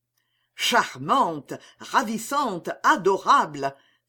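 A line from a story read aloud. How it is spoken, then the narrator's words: Exclaimed. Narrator (French): s'écria-t-il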